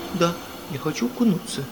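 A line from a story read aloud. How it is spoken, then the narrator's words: Innocent voice. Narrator (Russian): невинным голосом сказала фрау Эльза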